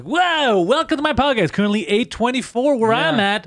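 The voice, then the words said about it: Radio announcer voice. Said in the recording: “And use the radio voice.”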